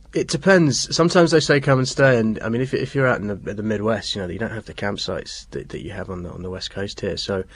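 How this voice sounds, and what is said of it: English accent. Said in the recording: “they'll kind of hear the English accent”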